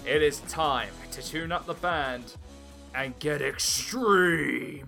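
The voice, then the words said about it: Attempted impression of a wrestling announcer. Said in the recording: “I can't do a good Paul Heyman impression.”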